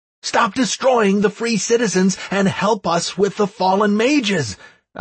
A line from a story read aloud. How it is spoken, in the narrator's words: I shouted, interrupting